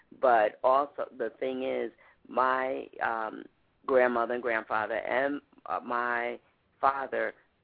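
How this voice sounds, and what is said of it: New York accent, voice congested. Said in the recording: “that's what I hear. In your voice... Even with a cold”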